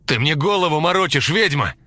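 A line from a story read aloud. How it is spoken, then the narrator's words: Shouting while falling. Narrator (Russian): закричал Герман, падая в траву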